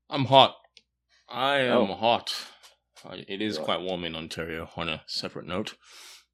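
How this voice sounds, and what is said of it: Australian accent. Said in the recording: “we all love his accent ... my brother from down under”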